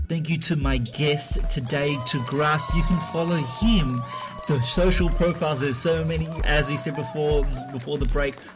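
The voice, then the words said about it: Australian / South African accent. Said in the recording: “excuse my Aussie / South African accent.”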